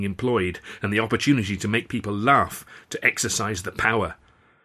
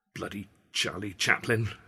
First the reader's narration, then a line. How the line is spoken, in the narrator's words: I muttered